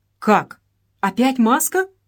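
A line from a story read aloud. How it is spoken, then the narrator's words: Exclaimed. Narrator (Russian): воскликнул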